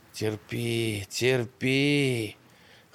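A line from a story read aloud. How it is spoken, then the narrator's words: Hoarse self-encouragement. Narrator (Russian): хрипло приговаривая для себя, Ершон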